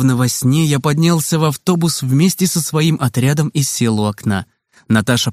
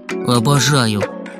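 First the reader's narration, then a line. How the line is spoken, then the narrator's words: Grumbled. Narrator (Russian): буркнул я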